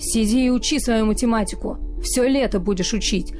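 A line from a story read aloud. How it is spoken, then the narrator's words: Growling. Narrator (Russian): прорычал он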